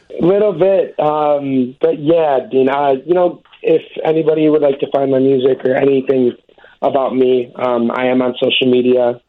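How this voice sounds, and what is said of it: Choked-up, emotional voice. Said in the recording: “you're a little choked up yourself”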